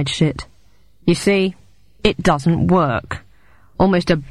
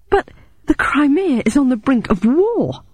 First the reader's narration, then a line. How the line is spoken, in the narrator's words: I exclaimed angrily